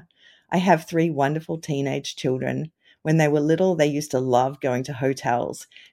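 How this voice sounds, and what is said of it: Australian accent. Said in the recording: “You might detect an accent because I grew up in Australia.”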